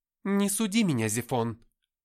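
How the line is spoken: Snapped. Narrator (Russian): огрызнулась Габриэль

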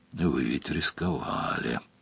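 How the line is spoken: Grumbling. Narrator (Russian): проворчал Сварог

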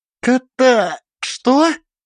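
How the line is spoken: Breathed out. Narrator (Russian): Я выдохнул

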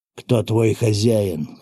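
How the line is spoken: Hoarse question. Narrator (Russian): хрипло спросил я

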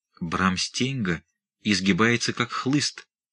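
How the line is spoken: Cautious whisper. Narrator (Russian): прошептал рядом с ним осторожный Иринг

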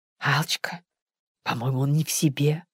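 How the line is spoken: Whispered suggestion. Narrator (Russian): шепотом предположил Бобров

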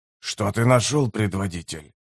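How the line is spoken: Whispered question. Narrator (Russian): шепотом спросил Делум

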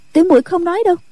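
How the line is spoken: Hurried, frightened. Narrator (Vietnamese): Nghi Lâm không kìm được sợ hãi, vội nói

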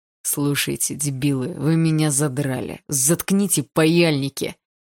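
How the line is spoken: Growling, jumping up. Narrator (Russian): прорычал он, подорвавшись на месте

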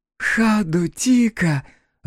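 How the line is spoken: Joyful cry. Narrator (Russian): радостно вскричала Фара

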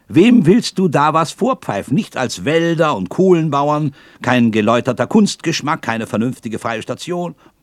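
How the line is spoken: Shouted. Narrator (German): rief der Waldhornist

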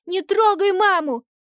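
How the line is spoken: Little girl's loud squeal. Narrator (Russian): доченька, громко взвизгивая

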